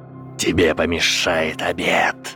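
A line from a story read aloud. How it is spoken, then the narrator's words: Hissing. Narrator (Russian): прошипел Волдеморт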